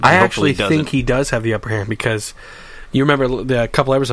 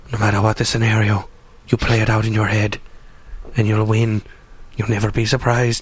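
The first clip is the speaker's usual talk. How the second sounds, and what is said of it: Littlefinger impression, whispery Scottish tone. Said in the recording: “That's a really good Littlefinger impression. ... You just have to, like, do a little Scottish and whisper. ... I think it's a talk out of the side of your mouth also.”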